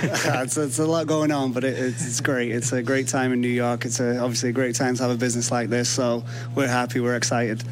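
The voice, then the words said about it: English accent. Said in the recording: “I can detect from your accent as well there may yeah. be a connection here.”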